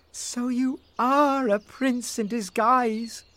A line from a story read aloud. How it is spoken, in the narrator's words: cried Rose